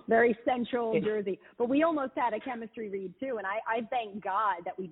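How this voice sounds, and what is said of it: Distinct Philadelphia accent. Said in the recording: “I have like a very distinct, I think, Philly accent.”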